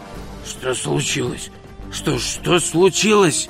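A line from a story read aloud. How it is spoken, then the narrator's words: Hoarse repeating. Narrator (Russian): хрипло повторял он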